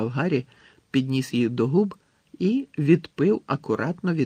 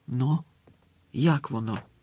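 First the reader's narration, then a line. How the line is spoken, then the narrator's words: Whispered. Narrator (Ukrainian): прошепотіла Герміона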